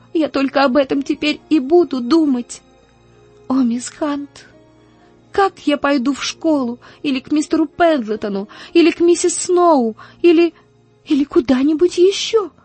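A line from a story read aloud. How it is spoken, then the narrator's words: Gasping, sobbing desperately. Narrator (Russian): Она с трудом хватала ртом воздух и отчаянно рыдала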